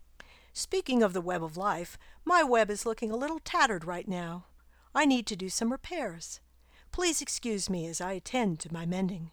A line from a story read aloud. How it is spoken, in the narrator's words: The spider chuckled, then said